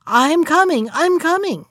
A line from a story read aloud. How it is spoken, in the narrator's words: his wife suddenly started up, exclaiming in a loud voice